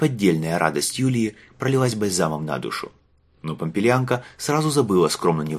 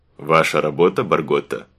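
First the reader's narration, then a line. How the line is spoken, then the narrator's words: Sarcastic question. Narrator (Russian): язвительно спросил легат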